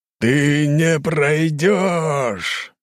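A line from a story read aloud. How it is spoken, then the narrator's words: Powerful roar. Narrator (Russian): взревел с мощью в голосе Энергиум Золотой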